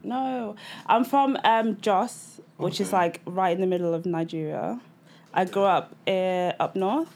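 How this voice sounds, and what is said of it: Mixed Nigerian and northern English accent. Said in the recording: “I'm Nigerian. Okay. Grew up up north. That's why I've got this weird ass accent.”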